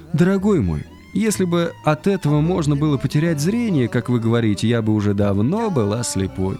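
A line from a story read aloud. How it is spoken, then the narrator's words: Completely calm. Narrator (Russian): она совершенно спокойно ответила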